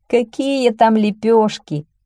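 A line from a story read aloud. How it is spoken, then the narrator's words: Laughing peasant. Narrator (Russian): засмеялся крестьянин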